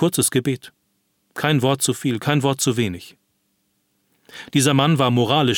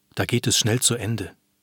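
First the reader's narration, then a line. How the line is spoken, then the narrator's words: Whispered. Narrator (German): flüsterte sie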